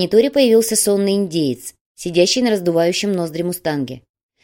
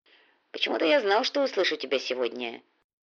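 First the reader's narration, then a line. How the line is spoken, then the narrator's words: Muttered. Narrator (Russian): пробормотал индеец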